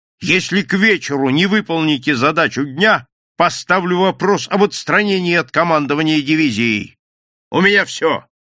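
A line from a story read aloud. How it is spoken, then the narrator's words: Loud angry shout over phone. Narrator (Russian): Не сбавляя тона в присутствии командарма, громко и зло крикнул в трубку Кирпичников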